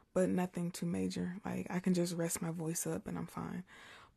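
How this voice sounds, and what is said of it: Slightly hoarse voice. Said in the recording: “I might sound a little hoarse, because if I whisper for so long, my voice is a little hoarse”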